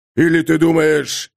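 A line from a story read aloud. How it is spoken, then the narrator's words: Growling. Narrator (Russian): рыкнул Крейг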